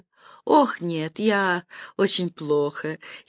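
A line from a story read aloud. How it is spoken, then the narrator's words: Giggling answer. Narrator (Russian): хихикнув, ответила голландка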